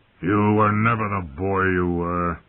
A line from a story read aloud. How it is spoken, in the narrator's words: Robert grumbled